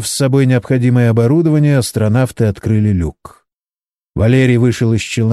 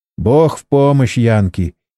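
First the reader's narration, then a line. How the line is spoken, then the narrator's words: Giggling. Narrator (Russian): хихикнул Борис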